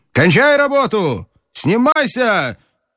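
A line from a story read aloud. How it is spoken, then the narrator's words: Curt harsh shout. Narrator (Russian): крикнул он отрывистым жестким голосом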